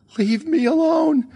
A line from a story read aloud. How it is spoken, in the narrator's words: she shrieked